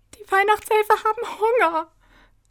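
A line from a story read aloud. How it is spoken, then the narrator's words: Speaking through sobs. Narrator (German): sagte Angelina zwischen ihren Schluchzern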